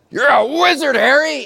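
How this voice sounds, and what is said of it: Hagrid impression. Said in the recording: “that a good Hagrid impression?”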